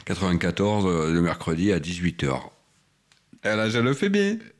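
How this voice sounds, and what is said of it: Sounds like a Marseille accent. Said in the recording (French): “on dirait un Marseillais.”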